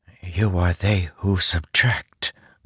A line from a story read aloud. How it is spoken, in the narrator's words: Zeth whispered